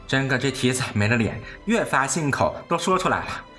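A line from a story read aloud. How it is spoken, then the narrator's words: Happy laughing. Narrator (Chinese): 平儿喜言笑道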